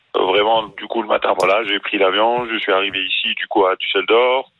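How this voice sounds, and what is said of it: Tunisian-accented French. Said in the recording (French): “t'as un accent tunisien”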